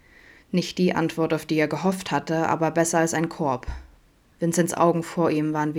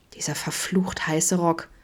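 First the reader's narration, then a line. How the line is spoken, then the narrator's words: Close, low groan. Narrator (German): stöhnte Adam in den winzigen Abstand zwischen ihnen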